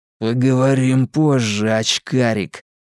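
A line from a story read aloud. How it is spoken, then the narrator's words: Through gritted teeth. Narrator (Russian): процедил Генри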